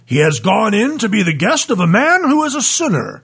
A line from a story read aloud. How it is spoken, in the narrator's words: they all grumbled